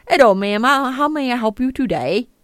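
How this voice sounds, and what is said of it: Awful put-on call-center accent. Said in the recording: “That was an awful accent. I don't know what you were attempting there. ... Was that North Dakota?”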